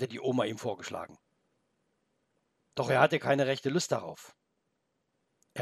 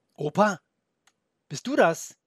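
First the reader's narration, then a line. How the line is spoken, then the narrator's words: Calling downstairs. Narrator (German): rief er nach unten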